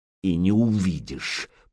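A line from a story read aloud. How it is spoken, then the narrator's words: Hiss. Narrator (Russian): прошипел Петик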